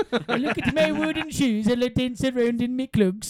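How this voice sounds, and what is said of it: Put-on Belgian accent. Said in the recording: “Hit me with your best Belgium accent ... it's like Denmark, kind of Belgium area, right? That's good.”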